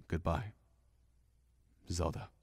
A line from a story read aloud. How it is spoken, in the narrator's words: Link murmured